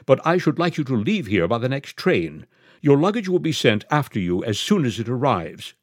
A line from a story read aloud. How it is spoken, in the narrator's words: said Miss Quabarl firmly